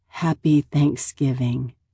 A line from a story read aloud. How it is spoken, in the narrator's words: Cindy murmurs with a strained smile